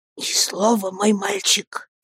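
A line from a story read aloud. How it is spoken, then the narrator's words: Whisper. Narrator (Russian): прошептал он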